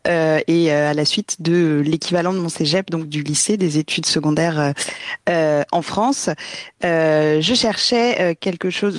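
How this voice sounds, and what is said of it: French accent from France. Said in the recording (French): “vous l'entendez à mon accent, je viens de France”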